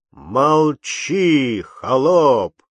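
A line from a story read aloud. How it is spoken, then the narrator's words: Loud roar. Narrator (Russian): заревел он громким голосом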